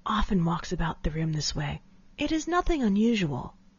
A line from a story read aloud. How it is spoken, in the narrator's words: she whispered